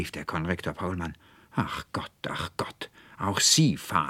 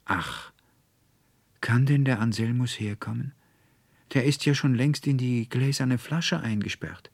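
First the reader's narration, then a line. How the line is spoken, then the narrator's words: Tearful sigh. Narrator (German): stürzten der Veronika ... die Tränen aus den Augen, und sie seufzte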